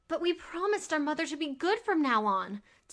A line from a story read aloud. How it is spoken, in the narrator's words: Dolores cried